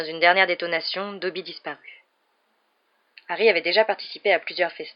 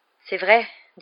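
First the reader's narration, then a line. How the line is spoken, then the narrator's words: Weak voice. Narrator (French): dit Harry d'une voix faible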